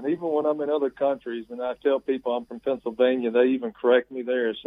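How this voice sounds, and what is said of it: Southern US accent. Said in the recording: “you're sounding an awful lot like not a Pennsylvania guy, but somebody in the Deep South ... southern accent”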